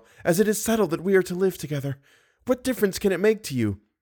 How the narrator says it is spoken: sighed the girl

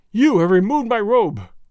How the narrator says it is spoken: he cried

